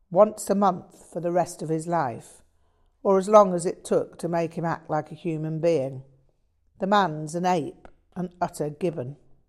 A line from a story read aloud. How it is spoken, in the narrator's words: stated Merrill quite firmly